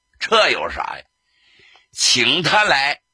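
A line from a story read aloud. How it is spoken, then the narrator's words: Laughing, amused. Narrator (Chinese): 贺龙一笑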